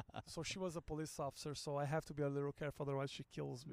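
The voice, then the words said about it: Foreign accent. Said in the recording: “And you have an accent. It's crazy.”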